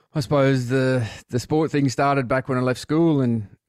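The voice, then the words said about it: Mixed Australian and Irish accent. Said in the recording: “hear that lovely accent. Part Australia, part Ireland”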